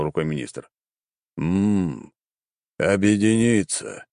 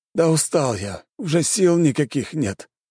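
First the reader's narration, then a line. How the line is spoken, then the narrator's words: Resigned weary sigh. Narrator (Russian): обреченно вздохнул министр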